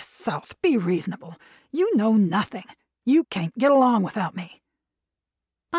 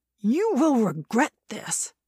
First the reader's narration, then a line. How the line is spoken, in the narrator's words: he said it angrily